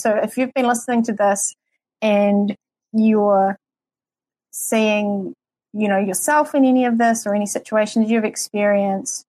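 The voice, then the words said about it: New Zealand accent. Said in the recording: “my New Zealand accent.”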